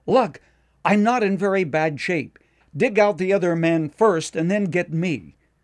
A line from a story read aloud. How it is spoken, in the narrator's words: the miner called out